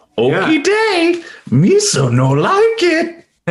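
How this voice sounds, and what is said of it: Jar Jar Binks cartoonish character voice. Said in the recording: “do a Jar Jar impersonation ... That was good.”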